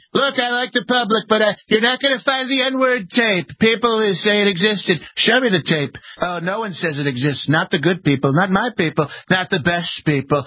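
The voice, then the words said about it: Donald Trump impression. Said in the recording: “your Trump impression ... it was sounded a little bit like the skipper”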